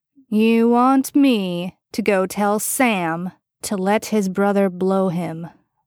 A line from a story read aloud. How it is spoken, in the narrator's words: Bobby drawled out slowly